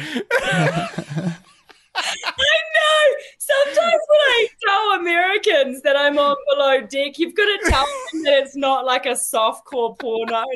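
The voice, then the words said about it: A noticeable accent. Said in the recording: “I love your accent. It's awesome.”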